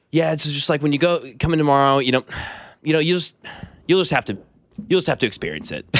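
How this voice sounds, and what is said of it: Imitates another person's voice. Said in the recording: “That's a good Kling impression,”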